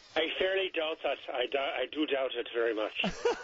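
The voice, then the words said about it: Put-on Irish brogue. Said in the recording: “You do a great brogue. I can tell you're in the theater. Very, very nice.”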